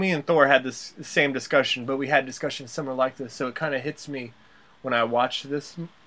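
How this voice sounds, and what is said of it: Usual voice. Nothing is said of it.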